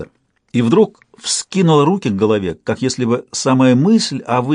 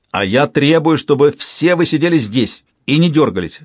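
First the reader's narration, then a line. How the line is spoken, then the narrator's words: Sudden bark. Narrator (Russian): внезапно рявкнул сатрап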